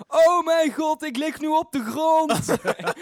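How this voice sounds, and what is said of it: Exaggerated Brabant Dutch accent. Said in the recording (Dutch): “in een super Brabants accent”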